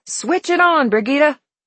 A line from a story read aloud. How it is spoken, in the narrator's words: cupped his hands around his mouth and said loudly